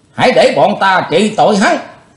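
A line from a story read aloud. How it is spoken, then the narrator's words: Shouting. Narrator (Vietnamese): có tiếng quát lên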